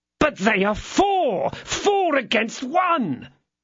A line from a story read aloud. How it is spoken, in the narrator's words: cried Jussac